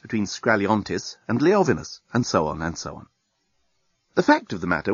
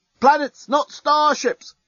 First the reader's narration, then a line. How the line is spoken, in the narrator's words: roar their placards to the baffled crowd